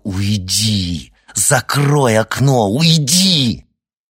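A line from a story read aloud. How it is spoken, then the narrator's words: Furious tearful hiss. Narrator (Russian): Глаза Оскара увлажнились яростью, и он прошипел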